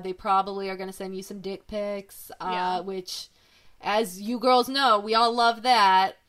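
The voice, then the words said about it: Sarcastic delivery. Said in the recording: “I don't know if you could sense my sarcasm. That was sarcastic.”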